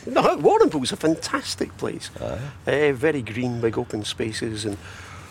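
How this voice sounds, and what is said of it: Australian accent. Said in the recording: “I went to school there. In Warrnambool ... that's where you've got this accent”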